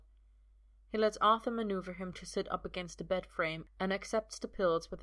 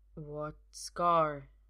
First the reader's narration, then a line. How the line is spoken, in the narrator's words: he asks slowly